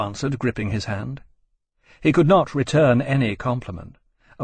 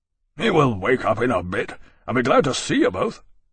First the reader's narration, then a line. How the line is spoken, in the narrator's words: Barclay said gruffly